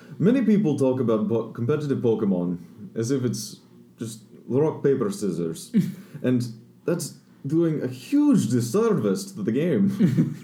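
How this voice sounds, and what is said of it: Poor put-on Scottish accent. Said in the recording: “a bit of a Scottish accent. It's kind of thick ... My Scottish accent isn't very good. ... Sounds more Russian.”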